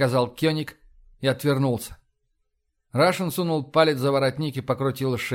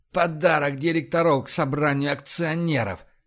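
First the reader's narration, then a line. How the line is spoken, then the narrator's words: Through gritted teeth. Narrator (Russian): процедил Кёник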